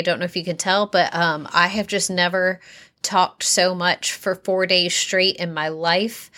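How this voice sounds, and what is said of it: Slightly hoarse voice. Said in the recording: “My voice is a little hoarse today.”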